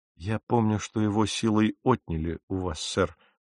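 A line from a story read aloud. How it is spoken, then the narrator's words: Plain. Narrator (Russian): сказал я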